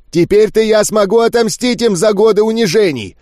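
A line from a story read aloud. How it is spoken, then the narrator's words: Shouting. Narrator (Russian): кричал он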